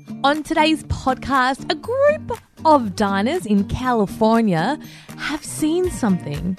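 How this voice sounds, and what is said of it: Attempted American accent. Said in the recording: “Are you still doing the American accent? ... Was it you trying to do an American accent?”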